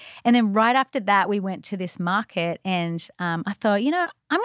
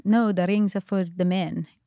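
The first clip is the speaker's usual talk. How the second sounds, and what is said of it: Put-on Israeli accent. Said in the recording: “this is my best Israeli accent”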